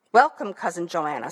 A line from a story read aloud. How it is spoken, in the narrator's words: said the king